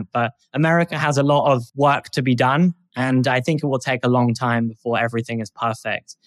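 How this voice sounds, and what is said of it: Non-American accent. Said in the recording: “it sounds hypocritical with my accent”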